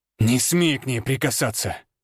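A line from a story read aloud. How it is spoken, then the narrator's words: Growling. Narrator (Russian): рыкнул я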